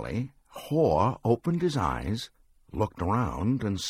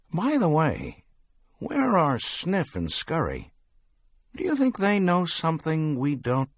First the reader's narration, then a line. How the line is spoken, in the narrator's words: Hem scoffed